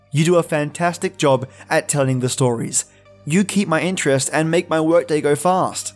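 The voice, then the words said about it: Australian accent. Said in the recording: “to the man down under with a kick butt accent”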